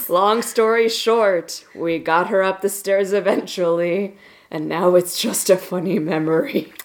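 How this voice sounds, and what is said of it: Reading in a spooky voice. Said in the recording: “saying it was a whole fiasco with a spooky voice ... reading funny stories in a spooky voice”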